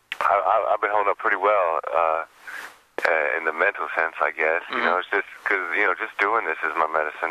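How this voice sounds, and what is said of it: Hoarse, froggy throat. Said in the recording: “I've got a frog in my throat”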